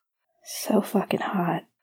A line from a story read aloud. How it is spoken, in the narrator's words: Leo said shakily